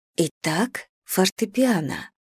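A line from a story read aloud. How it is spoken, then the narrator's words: Quiet speech. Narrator (Russian): тихо произношу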